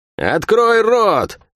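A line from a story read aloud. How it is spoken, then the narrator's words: Barking. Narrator (Russian): рявкнула она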